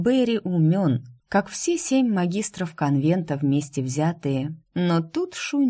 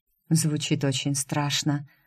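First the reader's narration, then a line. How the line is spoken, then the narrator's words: Sigh. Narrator (Russian): вздохнула Шу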